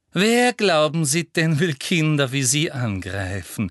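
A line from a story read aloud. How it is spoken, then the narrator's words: Honey-sweet question. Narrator (German): fragte Professor Umbridge mit honigsüßer Stimme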